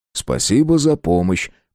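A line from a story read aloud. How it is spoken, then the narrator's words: Grumbling. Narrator (Russian): проворчал Мартин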